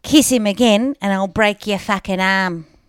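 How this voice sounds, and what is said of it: Broad Australian accent impression. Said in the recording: “That's a really, really good impersonation ... a real ochre Aussie accent ... You sound like Jackie Weaver.”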